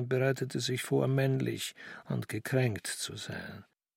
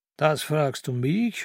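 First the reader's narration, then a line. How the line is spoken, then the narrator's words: Mocking old man. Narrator (German): höhnte der Alte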